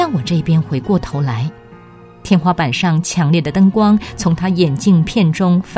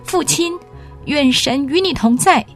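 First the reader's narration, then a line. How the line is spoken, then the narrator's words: Sudden shout. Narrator (Chinese): 我忽然喊了出来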